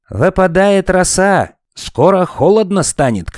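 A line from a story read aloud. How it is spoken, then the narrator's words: Shout. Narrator (Russian): крикнул Мумитроль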